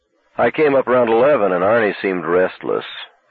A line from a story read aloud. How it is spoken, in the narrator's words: Michael said, still keeping his voice casual